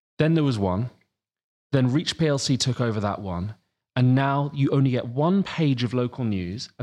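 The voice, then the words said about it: English accent from Sussex. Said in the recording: “Where I grew up in Sussex, you can probably tell from my accent”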